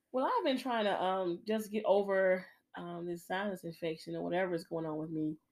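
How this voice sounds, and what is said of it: Raspy voice. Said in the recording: “my voice sound all raspy. Sounds like I smoke Newports”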